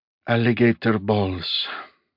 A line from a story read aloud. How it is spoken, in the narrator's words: he murmured